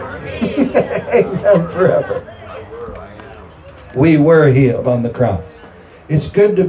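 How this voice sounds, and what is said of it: Usual voice. Nothing is said of it.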